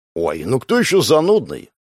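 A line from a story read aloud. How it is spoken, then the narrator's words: Wry snort. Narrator (Russian): Гоша хмыкнул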